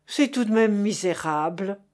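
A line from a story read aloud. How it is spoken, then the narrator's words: Groaning. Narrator (French): gémit Chéri Bibi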